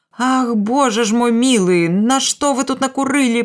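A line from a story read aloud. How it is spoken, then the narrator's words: Woman moaning. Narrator (Belarusian): прастагнала Марыя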